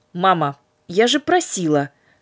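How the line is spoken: Menacing. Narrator (Russian): грозно сказала Катерина

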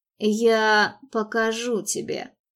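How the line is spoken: Hoarse promise. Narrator (Russian): хрипло пообещал он

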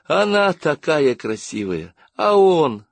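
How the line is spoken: Sighing. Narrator (Russian): вздохнула Дубравка

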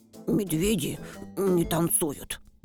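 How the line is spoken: Bear cub muttering. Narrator (Russian): Медвежонок буркнул

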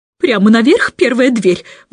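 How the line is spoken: Shrill squeal. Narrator (Russian): взвизгнула мисс Персимон

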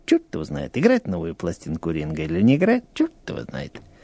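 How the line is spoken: Indecisive muttering. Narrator (Russian): сидел и бормотал

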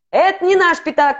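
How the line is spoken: Shouting. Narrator (Russian): кричал Модест

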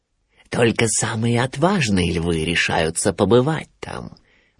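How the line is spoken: Persuasive whisper. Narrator (Russian): нашептывал Шрам Симбе

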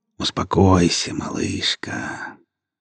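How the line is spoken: Gentle tender voice. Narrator (Russian): ласково проговорил Павел

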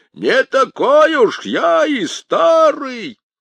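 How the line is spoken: Triumphant shout. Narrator (Russian): победоносно крикнул

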